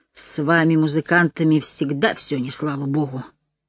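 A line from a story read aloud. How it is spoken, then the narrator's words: Grumbling. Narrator (Russian): проворчал Макэлрой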